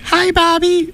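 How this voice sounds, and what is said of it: High-pitched cutesy voice. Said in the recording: “Like, a high voice?”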